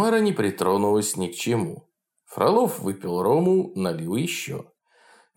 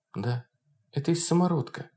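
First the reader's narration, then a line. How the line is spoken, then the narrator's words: Quiet. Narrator (Russian): ответила тихо Тамара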